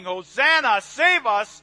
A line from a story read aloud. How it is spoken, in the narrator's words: shouting